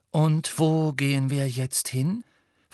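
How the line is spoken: Politely interested. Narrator (German): fragte sie Harry mit höflich interessierter Stimme, als sei dies alles ein ziemlich spannender Ausflug

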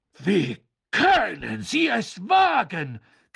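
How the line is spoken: Shriek. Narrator (German): kreischte Madame Maxime

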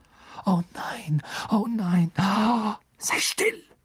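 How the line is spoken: Hissing. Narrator (German): zischte Harry

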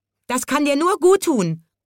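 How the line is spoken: Shrill parrot screech. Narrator (German): kreischte der Papagei

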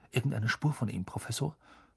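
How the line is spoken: Whispering. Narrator (German): flüsterte Percy

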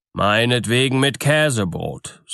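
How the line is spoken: Called out. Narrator (German): rief

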